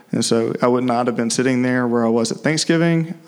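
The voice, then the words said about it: Southern American drawl. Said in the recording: “my southern drawl ... it's a little bit better now”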